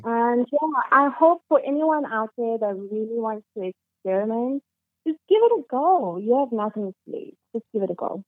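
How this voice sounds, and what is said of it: Non-native English accent. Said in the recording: “Your accent is fucking beautiful.”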